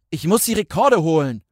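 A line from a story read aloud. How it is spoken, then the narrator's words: Roaring. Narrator (German): brüllte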